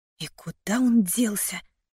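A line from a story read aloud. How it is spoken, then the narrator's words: Irritated whisper. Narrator (Russian): раздраженно прошептала я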